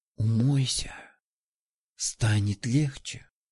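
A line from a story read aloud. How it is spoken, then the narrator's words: Whispered in ear. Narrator (Russian): шепнули ей в ухо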